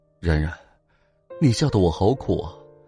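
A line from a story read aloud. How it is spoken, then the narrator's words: Long sigh. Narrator (Chinese): 齐军长长的叹了口气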